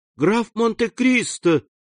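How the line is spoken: Sincerely joyful exclamation. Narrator (Russian): воскликнула она с искренней радостью

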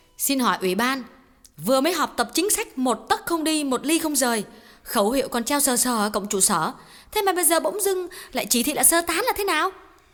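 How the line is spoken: Loud. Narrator (Vietnamese): Cô giáo Kim lớn tiếng nói

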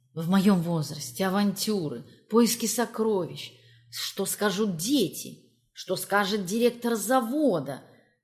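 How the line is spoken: Inner whisper. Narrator (Russian): шептал голос разума

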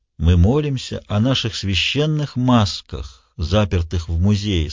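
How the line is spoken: Plain. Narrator (Russian): сказал вождь

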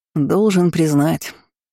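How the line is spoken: Father's amused grunt. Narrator (Russian): хмыкнул отец

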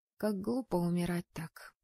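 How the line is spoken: Sad inner thought. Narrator (Russian): печально подумала я

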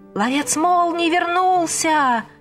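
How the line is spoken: Boys shouting joyfully. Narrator (Russian): Из каждого закутка радостно кричали мальчишки

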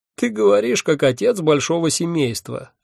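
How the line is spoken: Sudden laugh. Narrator (Russian): неожиданно рассмеялся он

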